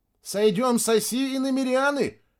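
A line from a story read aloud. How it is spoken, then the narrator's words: Shouting. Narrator (Russian): крикнул Новожилов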